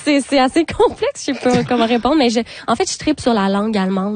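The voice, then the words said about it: Québécois French accent. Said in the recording (French): “êtes-vous des petits Québécois? ... c'est sûr que votre accent le dit”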